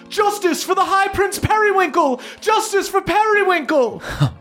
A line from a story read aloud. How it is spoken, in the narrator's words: shouts from the crowd of all of these blue dragon elves shouting out